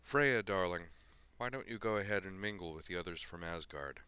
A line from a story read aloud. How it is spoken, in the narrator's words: he said calmly